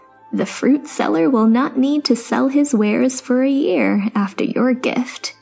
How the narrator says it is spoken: she continued with a chuckle

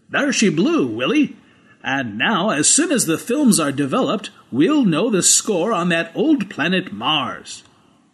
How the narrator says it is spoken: Rog Everett said triumphantly

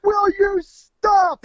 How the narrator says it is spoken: He yells

